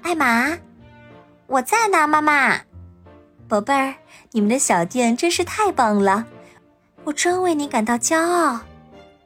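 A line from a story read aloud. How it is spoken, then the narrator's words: Soft call. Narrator (Chinese): 有人轻声叫我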